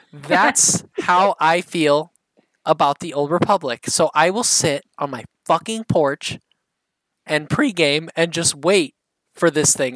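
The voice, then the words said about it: Midwestern American accent. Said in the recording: “the Midwestern accent”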